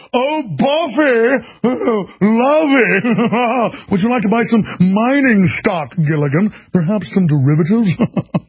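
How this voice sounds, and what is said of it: Posh mid-Atlantic Thurston Howell III voice. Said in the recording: “a fake Atlantic elitist accent ... a slight British accent ... a Thurston Howell III”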